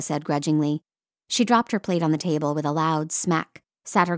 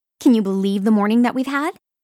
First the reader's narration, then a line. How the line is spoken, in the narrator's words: Holly asked excitedly